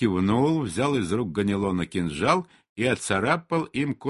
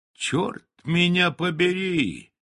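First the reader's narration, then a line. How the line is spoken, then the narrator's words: Delighted exclamation. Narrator (Russian): воскликнул явно восхищенный Рэндом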